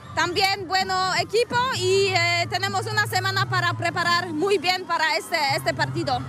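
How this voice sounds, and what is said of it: Polish accent speaking Spanish. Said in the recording (Catalan): “parlant castellà, té un accent molt similar al de Robert Lewandowski ... Són els polonesos que els hi acaba quedant aquest accent”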